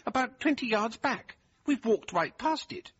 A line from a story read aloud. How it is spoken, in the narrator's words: exclaimed